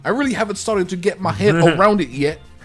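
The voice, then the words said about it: Put-on New Zealand accent. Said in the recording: “should I say in his voice? ... The Kiwi accent is fun to say.”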